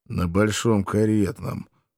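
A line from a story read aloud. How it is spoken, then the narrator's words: Gloomy grumble. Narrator (Russian): хмуро буркнул я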